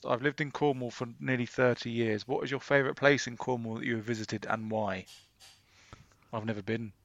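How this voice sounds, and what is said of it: Southwest English accent. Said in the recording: “take the piss out of my accent and the southwest”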